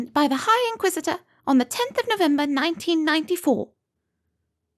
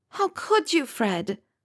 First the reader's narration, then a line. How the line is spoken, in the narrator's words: let out a sigh